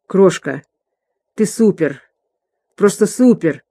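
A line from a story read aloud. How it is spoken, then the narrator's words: Hoarse. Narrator (Russian): хрипло произнес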